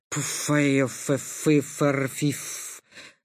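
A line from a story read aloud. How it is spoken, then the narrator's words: Powerful wheezing bass. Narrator (Russian): Раздался мощный хрипящий бас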